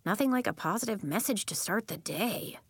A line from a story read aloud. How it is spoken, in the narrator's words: Elliot whispered to Nori